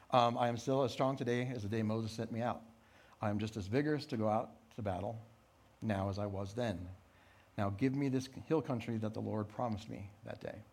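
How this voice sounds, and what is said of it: Fast rushed reading. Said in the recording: “I'm reading this fast”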